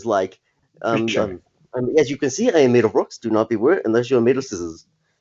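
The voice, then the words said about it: Imitated New Zealand-accented character voice. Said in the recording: “Korg impression ... how the fuck do people from New Zealand talk again”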